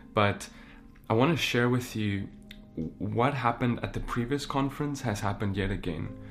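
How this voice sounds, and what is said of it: Voice sounds ill. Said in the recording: “please excuse my voice. You may hear it sounds a little different. It's because I came down with like some sickness”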